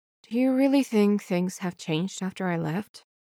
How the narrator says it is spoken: Wei Wuxian murmurs

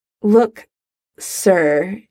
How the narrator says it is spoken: he stammers, formality unfamiliar in his mouth

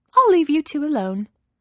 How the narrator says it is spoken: Nancy says brightly

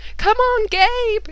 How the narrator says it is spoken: everybody screamed

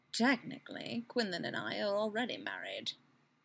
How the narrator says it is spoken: Obi-Wan murmurs

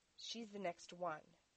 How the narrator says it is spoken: Dean said firmly

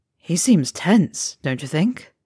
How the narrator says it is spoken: Fred muttered, loud enough for only his twin to hear

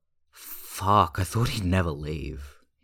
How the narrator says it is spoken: Hyunjin groans into the sofa cushion

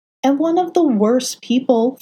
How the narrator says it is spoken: Foggy exclaimed

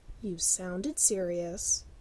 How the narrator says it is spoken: Sean said sulkily

